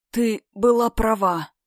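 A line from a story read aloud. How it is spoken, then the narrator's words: Hoarse rasp. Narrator (Russian): прохрипела Кхар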